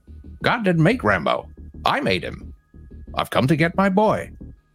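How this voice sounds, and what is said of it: Imitates a movie character's voice. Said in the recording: “Was that a good impression? ... No.”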